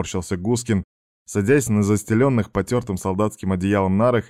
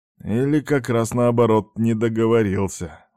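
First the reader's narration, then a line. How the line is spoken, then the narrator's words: Gloomy marine muttering. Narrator (Russian): мрачно буркнул морпех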